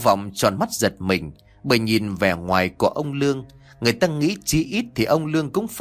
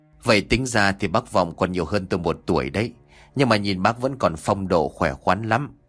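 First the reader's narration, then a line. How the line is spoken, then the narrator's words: Chuckling reply. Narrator (Vietnamese): Ông Lương khẽ cười mà đáp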